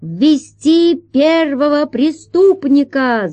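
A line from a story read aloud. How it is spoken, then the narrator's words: Shouting judge. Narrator (Russian): закричал судья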